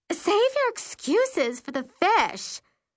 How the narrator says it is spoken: she snaps

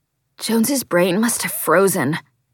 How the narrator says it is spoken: Colin gasps

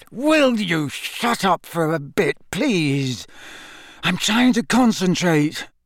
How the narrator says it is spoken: Harry said through gritted teeth

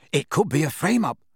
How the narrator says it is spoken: Ron exclaimed excitedly

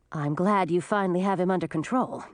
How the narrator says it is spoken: said Millie

